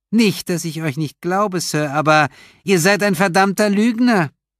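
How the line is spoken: Called out. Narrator (German): rief Leslie

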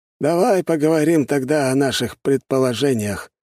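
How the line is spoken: Heavy sigh, suggesting. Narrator (Russian): тяжело вздохнув, предложил Воронцов

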